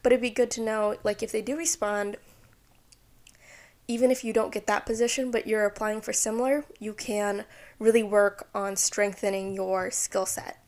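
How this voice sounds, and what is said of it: Tired voice, sounding weird and cracking. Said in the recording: “hear from my voice, but I'm kind of sick. Not really. I think my voice is just tired. And I'm a bit dehydrated ... my voice is sounding weird and cracking a lot”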